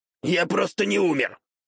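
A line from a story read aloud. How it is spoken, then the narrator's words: Sharp, pained through teeth. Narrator (Russian): резко оборвал его Макото, сжимая зубы от боли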